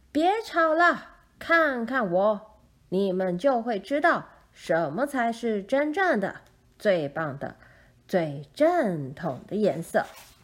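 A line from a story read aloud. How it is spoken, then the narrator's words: Loud declaration. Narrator (Chinese): 绿色斑点的金黄色乌鸦大声说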